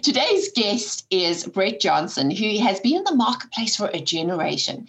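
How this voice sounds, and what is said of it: South African accent. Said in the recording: “familiar accent ... two South African voices”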